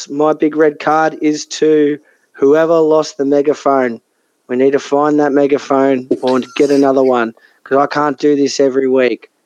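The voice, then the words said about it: Hoarse voice. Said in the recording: “my voice is still a little hoarse.”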